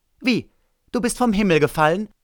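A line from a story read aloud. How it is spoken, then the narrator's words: Called out. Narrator (German): rief er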